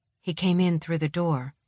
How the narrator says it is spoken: she says quietly

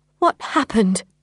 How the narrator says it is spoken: I asked, my voice shaking

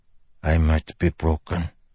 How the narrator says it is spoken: the man said softly

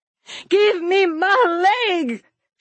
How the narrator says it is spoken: she screeched

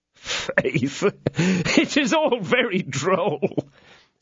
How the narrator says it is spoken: said the now comforted D'Artagnan, holding his sides with laughter

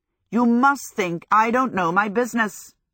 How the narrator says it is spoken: Hal said irritably

